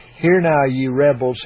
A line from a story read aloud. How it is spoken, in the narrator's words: he said